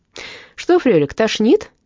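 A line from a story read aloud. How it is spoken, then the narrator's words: Cheerful question. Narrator (Russian): весело спросил Сквенке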